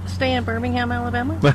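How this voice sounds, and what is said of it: Imitated Alabama accent. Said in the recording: “Was that your imitation of an Alabama accent?”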